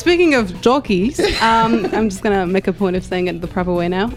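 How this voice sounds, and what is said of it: New Zealand accent. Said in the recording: “the most amazing New Zealand accent ever, even though she's French”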